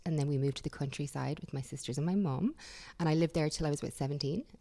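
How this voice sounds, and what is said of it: Irish accent. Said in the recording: “as you can probably tell from your accent, you are from Ireland.”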